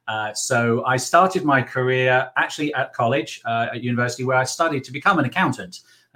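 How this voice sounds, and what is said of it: English accent. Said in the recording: “you can guess from my accent that I'm from England”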